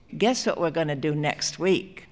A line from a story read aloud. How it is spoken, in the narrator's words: Freddie said in his chirping voice